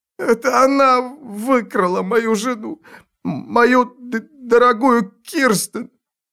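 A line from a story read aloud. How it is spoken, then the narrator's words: Whimpering, sobbing man. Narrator (Russian): проскулил мужик и вновь зарыдал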